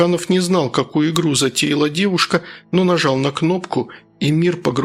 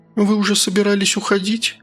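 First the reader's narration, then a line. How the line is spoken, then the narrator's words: Sad question. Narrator (Russian): печально спросила она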